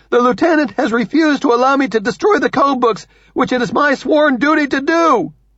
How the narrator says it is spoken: Benjamin shouts

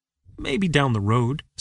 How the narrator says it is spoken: said Larry

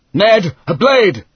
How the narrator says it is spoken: Hal yelled wildly

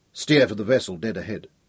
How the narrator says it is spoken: said Hal quietly

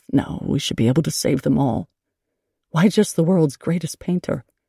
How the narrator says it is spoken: Fry muttering under his breath

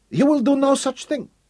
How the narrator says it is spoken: snapped

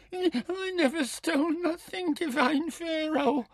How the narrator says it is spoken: whined

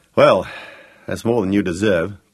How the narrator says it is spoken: grunted Gareth

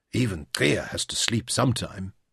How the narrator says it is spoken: Jim whispered to Bakat

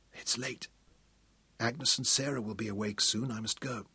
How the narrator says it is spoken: Caroline whispered

